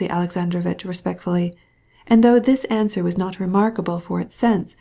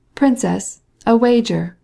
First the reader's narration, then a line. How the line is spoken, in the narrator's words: cried the voice of Stepan Arkadyevitch from below